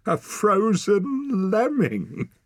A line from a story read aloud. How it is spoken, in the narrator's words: Wren burst out laughing